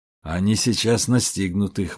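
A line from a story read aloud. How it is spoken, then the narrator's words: Gloomy. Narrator (Russian): мрачно сказал Кичи-Тархан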